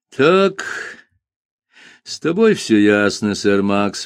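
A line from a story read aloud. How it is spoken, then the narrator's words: Sighing. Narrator (Russian): вздохнул Джуффин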